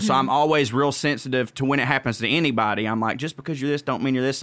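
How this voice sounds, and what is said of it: Southern American accent. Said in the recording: “little southern white man or whatever, but like anytime, you know, when people hear my accent”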